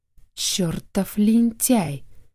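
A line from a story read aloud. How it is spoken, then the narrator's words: Angry drawl. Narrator (Russian): сердито протянул дядя Яша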